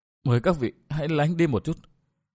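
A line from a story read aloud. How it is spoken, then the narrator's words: Soft speech. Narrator (Vietnamese): Tặc nữ khẽ nói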